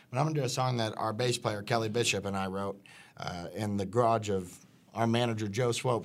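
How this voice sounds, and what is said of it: Hoarse voice. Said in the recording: “I'm hoarse, but I'm going to do the best I can. I've been suffering from a cold”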